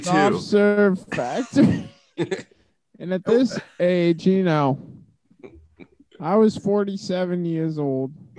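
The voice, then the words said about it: Imitates another person's voice. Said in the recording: “This is my Joe Biden impression.”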